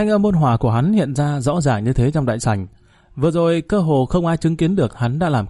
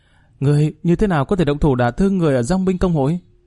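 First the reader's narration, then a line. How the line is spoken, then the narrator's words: Slightly trembling voice. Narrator (Vietnamese): Thanh âm của Mã Thụy rõ ràng có chút run rẩy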